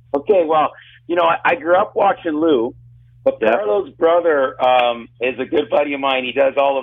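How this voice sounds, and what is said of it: Slightly raspy voice. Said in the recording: “I'm a little raspy, ... I was yelling till 3 in the morning”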